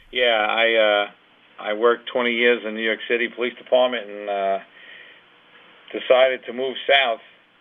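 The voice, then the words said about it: New York accent. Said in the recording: “As you can probably tell from his voice, ... hasn't always been working in Florida.”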